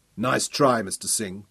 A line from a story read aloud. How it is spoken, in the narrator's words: Daniel smiled coldly